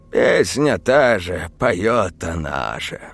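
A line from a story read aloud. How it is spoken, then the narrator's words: Weary sigh. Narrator (Russian): вздохнул домовой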